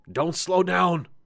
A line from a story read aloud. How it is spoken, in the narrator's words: the ranger called out